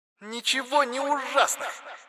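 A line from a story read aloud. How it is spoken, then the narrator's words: Shrill woman's voice. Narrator (Russian): Вдруг раздался визгливый женский голос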